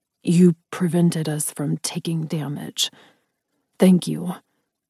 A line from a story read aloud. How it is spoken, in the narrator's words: Saruk said softly